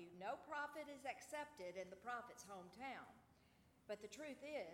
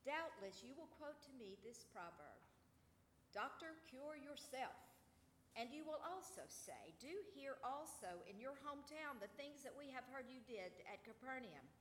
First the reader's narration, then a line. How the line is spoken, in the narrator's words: he said